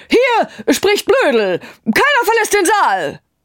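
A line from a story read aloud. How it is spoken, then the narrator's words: Shouting. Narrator (German): schrie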